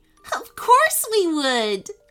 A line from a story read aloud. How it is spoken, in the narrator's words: laughed Eli